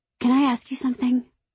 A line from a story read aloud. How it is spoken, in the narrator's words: I say nervously